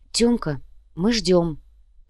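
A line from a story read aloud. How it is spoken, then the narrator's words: Whisper. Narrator (Russian): прошептала Инга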